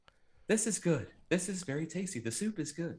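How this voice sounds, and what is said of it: Weird put-on character voice. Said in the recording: “it's this weird, like 80-yard voice ... he's doing this whole voice”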